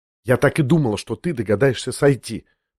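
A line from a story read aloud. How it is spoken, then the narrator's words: Quick whisper. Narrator (Russian): проговорила она быстрым шепотом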